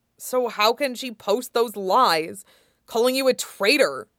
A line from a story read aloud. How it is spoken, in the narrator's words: Zuko said fiercely